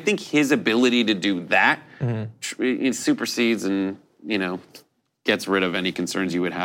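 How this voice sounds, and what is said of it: Usual voice. Nothing is said of it.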